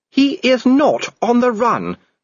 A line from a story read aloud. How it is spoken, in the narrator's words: snapped Sybil